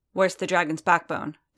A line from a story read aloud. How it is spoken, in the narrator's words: Din asked sharply